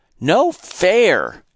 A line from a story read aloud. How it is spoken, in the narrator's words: Cheryl cried